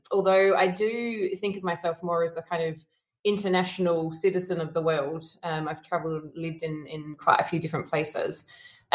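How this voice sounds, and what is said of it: Australian accent. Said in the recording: “You have a lovely Australian accent”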